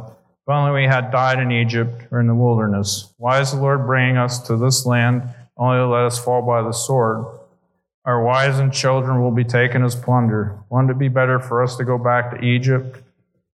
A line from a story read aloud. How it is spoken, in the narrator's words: grumbled, the whole assembly said